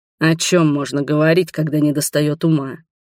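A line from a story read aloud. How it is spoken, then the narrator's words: Grumble. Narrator (Russian): проворчал Адельхард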